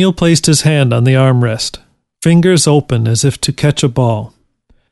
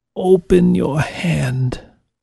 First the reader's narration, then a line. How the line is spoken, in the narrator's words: Ned said in a whisper